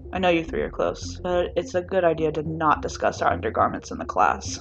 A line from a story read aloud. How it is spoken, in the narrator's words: Shinso mumbles